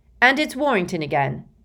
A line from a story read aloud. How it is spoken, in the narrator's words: bellowed Lee